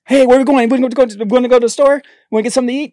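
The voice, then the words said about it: Fast, hyper, rapid-fire speech. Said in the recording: “I talk fast. ... Do an impression of yourself when you were 15. ... I was just kind of like Speedy Gonzalez. ... Just like, blah, blah, blah, blah, blah.”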